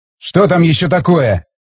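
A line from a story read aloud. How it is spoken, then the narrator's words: Grumbling. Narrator (Russian): проворчал Стечкин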